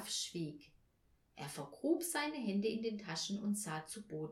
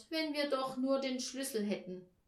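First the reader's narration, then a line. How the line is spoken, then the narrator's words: Sorrowful sigh. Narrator (German): seufzte Paul bekümmert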